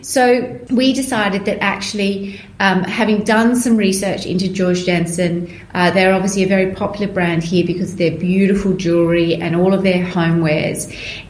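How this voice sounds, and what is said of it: Australian accent. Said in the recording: “a terribly Australian accent”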